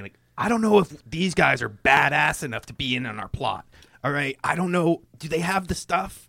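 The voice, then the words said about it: Loud stage whisper. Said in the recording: “I'm going to start doing, like, a loud whisper so that they can obviously hear me.”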